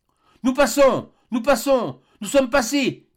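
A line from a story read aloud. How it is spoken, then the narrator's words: Shouted. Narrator (French): cria une voix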